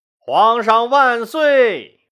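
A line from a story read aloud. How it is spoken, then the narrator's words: Excited crowd shouting. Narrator (Chinese): 所有人都沸腾了，大声喊道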